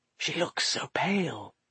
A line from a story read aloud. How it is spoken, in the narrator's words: whispered Silvertongue